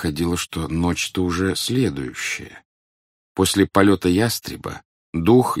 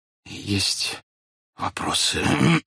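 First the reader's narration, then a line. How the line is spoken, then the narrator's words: Soundless hoarse wheeze. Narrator (Russian): беззвучно просипел статский советник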